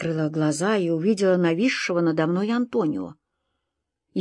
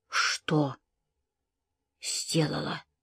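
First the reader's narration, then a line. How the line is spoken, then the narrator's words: Whispered question. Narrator (Russian): шепотом спросила я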